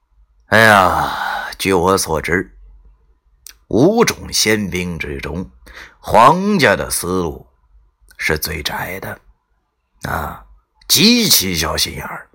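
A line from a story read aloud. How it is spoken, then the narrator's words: Slow speech, lame man. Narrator (Chinese): 瘸子慢慢讲道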